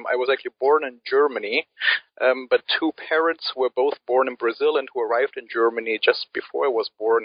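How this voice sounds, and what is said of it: Non-native English accent. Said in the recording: “my accent that I um, am not an Anglophone by birth”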